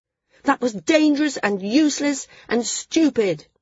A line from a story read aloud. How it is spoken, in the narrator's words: Maris shouted